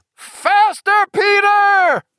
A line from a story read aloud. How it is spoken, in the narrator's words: Roland bellowed, swinging a huge mug of mead with such enthusiasm